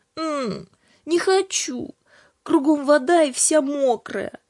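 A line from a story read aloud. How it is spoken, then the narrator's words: Sleepy plaintive murmur. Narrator (Russian): сквозь сон жалобно проговорила Аня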